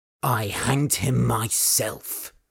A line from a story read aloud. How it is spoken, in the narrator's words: said Old Man Torsten coldly